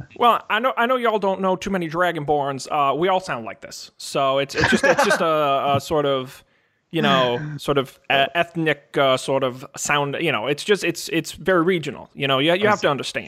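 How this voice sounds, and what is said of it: Odd regional accent, dragon character voice. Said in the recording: “what sort of accent is that? Like, what region of...”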